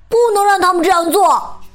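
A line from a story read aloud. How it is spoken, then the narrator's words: Loud shout. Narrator (Chinese): 大声喊道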